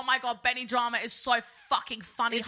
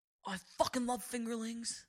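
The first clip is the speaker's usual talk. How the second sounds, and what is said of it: Timothée Chalamet impression. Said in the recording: “about to do a Timothy Chalamet impression”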